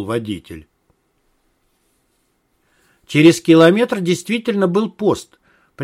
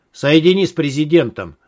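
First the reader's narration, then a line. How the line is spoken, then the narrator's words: Sharp. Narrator (Russian): резко сказал Малахов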